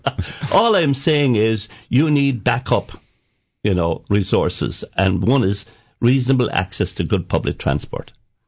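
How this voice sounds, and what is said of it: Irish accent, County Cork. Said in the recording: “the same Irish accent I have ... County Cork”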